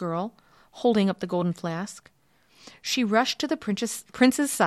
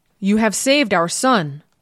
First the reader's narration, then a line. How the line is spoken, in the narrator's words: cried the Emperor Pachacuti